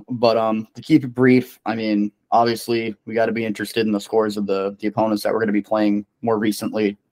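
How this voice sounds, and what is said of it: Strained, fading voice. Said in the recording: “I'm losing my voice rapidly right now.”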